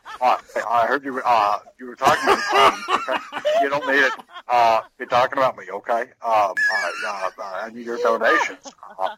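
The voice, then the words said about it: Imitates another person's voice. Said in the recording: “That was an accurate impression.”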